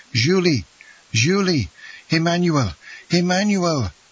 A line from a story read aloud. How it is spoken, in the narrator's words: exclaiming energetically